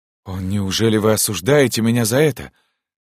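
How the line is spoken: Gentle, guilty question. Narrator (Russian): мягко и виновато спросил принц

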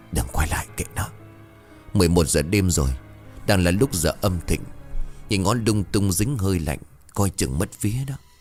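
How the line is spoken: Calm, hoarse voice. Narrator (Vietnamese): ông Khán vẫn bình tâm nói bằng giọng khàn khàn

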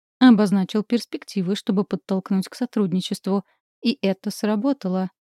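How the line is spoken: Plain. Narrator (Russian): говорит Шейн

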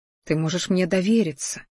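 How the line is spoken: Whispered. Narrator (Russian): шептал я ей

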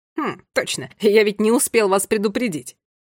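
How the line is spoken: Uncle's amused snort. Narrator (Russian): хмыкнул дядя Бак

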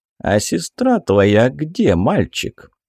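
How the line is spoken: Gentle question, small speaker. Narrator (Russian): Ласково осведомился мелкий

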